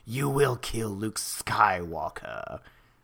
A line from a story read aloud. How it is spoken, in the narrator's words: the Emperor's wrinkled face hissing